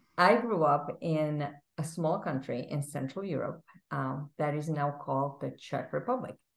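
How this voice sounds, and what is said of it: Foreign Central European accent. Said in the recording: “as you can tell from my accent, I wasn't born here”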